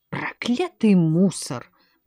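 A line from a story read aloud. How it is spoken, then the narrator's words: Muttering. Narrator (Russian): пробормотал Симон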